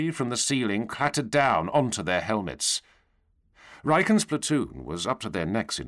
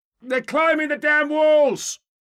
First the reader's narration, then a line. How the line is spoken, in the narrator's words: Someone cried out